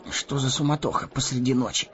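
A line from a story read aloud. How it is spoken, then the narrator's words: Muttering. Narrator (Russian): пробормотал Мэри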